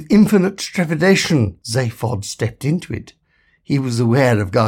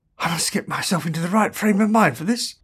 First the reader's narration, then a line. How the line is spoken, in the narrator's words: muttered Zaphod